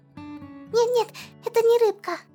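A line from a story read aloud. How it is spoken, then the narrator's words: Squeak. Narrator (Russian): пискнул пятачок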